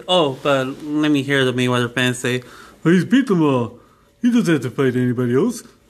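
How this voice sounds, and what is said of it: Imitates a cartoonish character voice. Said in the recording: “Sorry for my Rocky and Bobby Go impersonation ... I thought you were sounding like Grimace from McDonald's.”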